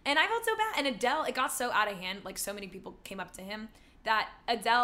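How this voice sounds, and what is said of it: Usual voice. Nothing is said of it.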